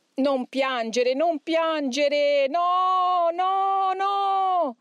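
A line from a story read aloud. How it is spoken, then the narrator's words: Shouting. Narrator (Italian): cominciò a gridare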